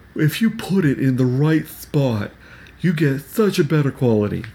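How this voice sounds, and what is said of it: Tim Cook impression. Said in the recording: “my Tim Cook impression”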